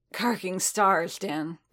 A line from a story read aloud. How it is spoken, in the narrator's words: Boba said, his voice rough with rust